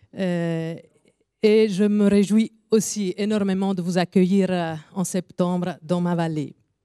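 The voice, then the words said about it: French with Italian accent. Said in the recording (French): “je m'excuse déjà pour mon accent ... mon accent est là pour dire qu'il y a aussi une réforme qui vient du sud, qui parle italien”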